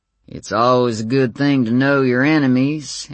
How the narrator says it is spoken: answered Warren in his lazy Texas drawl

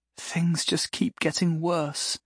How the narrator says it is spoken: she said softly

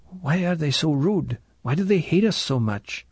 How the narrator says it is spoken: nudged him and whispered

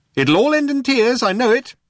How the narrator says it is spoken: shouted Eddie after them

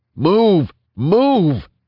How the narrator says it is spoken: he yelled to his front

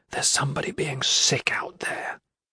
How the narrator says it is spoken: discreetly whisper

